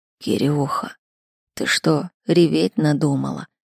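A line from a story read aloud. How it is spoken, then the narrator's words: Weak, unfamiliar voice. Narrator (Russian): спросил Эдуард слабым, практически незнакомым голосом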